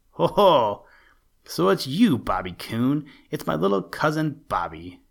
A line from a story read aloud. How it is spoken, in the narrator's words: exclaimed the deep, grumbly, rumbly voice of Buster Bear, followed by a chuckle